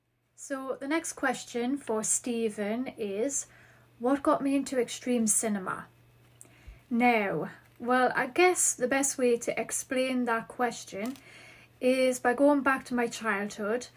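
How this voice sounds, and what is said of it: Geordie northeast English accent. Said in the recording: “my Geordie accent ... I do have the Geordie accent”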